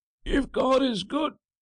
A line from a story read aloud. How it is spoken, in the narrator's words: cried Francois harshly, and his voice came plainly to the priest's ears, as if the lid of the coffin had rotted